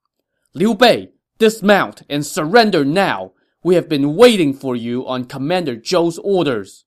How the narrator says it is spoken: The two generals at the head of this roadblock shouted sternly

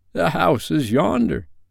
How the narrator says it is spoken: Scrooge exclaimed

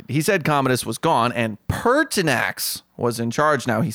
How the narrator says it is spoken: he said very loudly

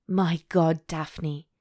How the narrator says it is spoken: Simon gasped

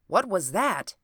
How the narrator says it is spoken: cried the doctor

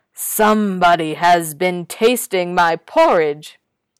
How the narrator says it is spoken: The great big bear said in his great big voice

